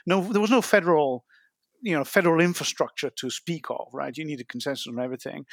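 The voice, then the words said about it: Non-American accent. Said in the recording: “you're American, and I obviously am not, as you can tell from my accent”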